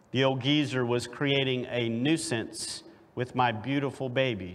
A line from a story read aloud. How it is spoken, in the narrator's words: she says